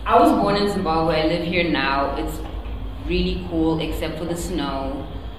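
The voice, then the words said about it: Speaks with a noticeable accent. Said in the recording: “Apparently, I have an accent. Do you guys hear it? ... Yes.”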